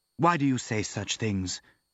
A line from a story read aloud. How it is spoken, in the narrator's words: murmured